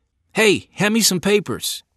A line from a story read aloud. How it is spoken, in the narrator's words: shouted